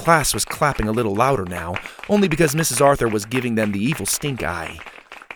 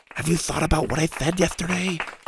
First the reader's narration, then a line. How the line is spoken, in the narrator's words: Mac whispered loudly